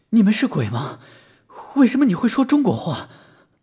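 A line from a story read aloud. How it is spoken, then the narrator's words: Shaken panting question. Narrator (Chinese): 小恒惊魂未定，喘着粗气问道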